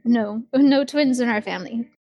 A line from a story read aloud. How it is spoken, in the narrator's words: Celeste will laugh and say